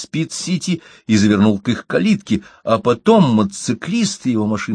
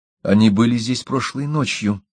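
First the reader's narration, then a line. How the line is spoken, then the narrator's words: Quiet remark. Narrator (Russian): тихо заметила она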